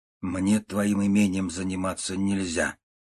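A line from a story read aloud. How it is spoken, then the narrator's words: Sad. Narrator (Russian): сказал он печально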